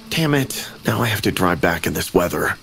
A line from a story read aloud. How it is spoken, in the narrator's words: murmured to myself in a low voice